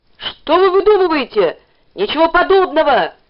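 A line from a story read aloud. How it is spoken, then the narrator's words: Shouting. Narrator (Russian): кричал Ленька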